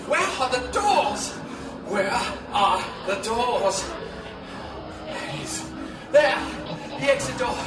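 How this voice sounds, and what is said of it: Panicked shouting. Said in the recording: “why are you shouting?”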